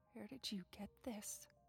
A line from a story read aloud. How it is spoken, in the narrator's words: whispered